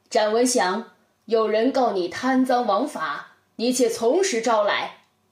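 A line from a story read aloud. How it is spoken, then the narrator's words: Loud resonant voice. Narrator (Chinese): 包公声音洪亮，对他说道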